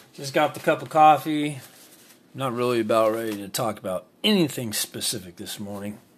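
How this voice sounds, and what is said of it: Groggy, just-woken-up voice. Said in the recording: “Probably tell by my voice I just woke up”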